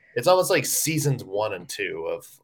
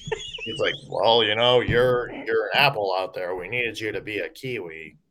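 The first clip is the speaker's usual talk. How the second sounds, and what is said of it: Dull, boring imitated voice. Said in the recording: “That's my John Hines impression, by the way... It was almost okay... like the Kevin Malone from like the early Office days... Boring. I feel like that's like the John Hines voice.”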